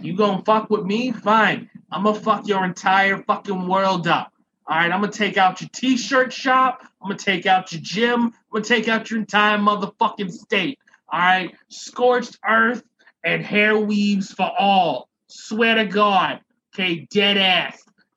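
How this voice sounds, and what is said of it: Exaggerated New Jersey accent, poorly done. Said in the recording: “for all of our Jersey people, I'm so sorry if this accent offends you. I'm horrible at them.”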